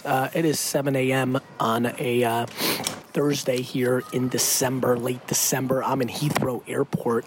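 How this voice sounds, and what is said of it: Rough, unwell-sounding voice. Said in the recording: “Sorry about my voice. A little December weather action, I guess.”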